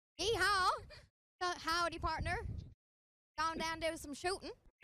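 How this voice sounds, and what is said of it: Put-on American Southern cowboy accent. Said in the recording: “try out an American accent ... I live in the South, and that's how we all talk.”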